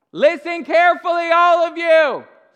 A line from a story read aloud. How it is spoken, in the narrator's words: Peter shouted to the crowd